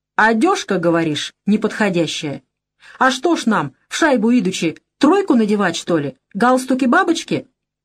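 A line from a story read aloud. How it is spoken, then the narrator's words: Angry. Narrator (Russian): Парень в брезентовой куртке зло проговорил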